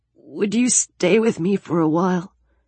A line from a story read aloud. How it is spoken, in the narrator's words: He said in that same fragile voice